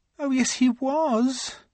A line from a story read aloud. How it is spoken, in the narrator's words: she said miserably